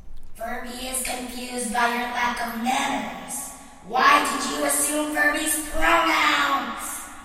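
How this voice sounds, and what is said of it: Demonic character voice. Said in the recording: “spoke in a demonic voice.”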